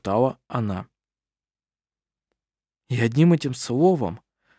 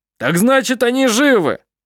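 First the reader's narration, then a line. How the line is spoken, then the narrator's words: Shout. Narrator (Russian): Прокричал другой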